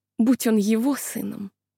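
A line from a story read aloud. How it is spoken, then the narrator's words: Mutter. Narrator (Russian): она пробормотала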